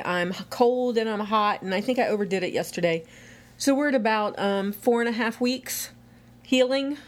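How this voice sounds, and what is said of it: Out of breath, tired voice. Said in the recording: “You feel a little out of breath today. ... I am out of breath today.”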